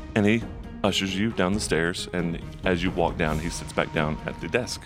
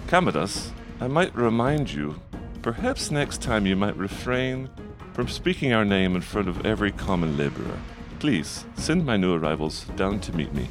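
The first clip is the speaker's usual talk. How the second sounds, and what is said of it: Thick-accented female voice, almost laughing. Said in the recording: “a female voice with kind of a thick accent, almost laughing”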